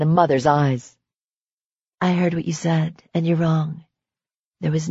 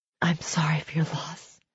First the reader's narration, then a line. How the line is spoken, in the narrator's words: Serena whispered